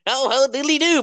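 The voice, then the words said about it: Poor Ned Flanders impression. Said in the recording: “That was a shit Ned Flanders impression... That was a terrible Ned Flanders impression.”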